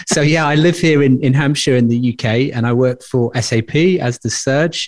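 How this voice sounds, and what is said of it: British accent. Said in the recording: “my very best British accent”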